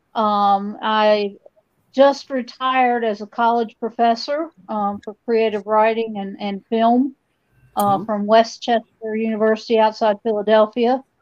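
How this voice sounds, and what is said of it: Kentucky American accent. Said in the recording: “obviously this is not a New Jersey accent that you're hearing. I grew up in Kentucky.”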